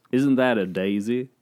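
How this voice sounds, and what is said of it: Funny, slightly congested imitated voice. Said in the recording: “funny voice ... I'm not doing the best impression of him ... it's like he has a bit of a cold”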